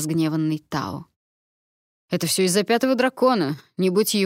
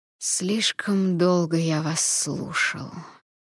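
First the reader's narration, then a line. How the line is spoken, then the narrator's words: Repeated whisper. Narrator (Russian): повторил я шепот дракона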